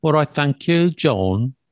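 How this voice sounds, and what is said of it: Attempted Brummie accent. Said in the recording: “That's my attempt at the Brummie accent. ... I can't do a Brummie accent. ... That was really good.”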